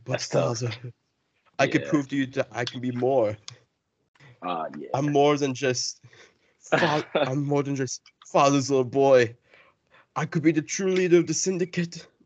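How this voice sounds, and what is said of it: Whiny voice with British accent. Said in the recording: “He just felt like a whiny little boy who was trying to, like, please his father. ... With like, a British accent.”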